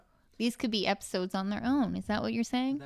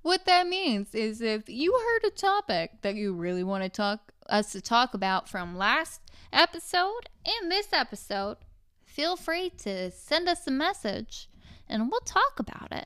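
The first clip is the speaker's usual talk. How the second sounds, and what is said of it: Game show host voice. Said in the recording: “game show voice”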